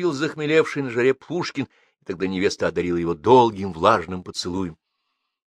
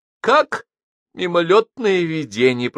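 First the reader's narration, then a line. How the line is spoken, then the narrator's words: Moan. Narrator (Russian): простонал Паша, обмикая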